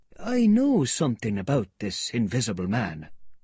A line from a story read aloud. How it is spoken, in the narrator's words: he said, and lowering his voice